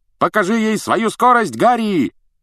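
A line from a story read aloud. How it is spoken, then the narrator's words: Shout while flying past. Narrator (Russian): крикнул Фред, пролетая мимо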